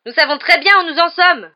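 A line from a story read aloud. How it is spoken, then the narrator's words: Roaring. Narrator (French): rugit Harry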